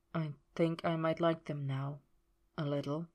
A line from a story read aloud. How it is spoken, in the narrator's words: he murmured